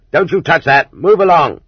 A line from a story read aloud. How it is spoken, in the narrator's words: the convoy guard would roar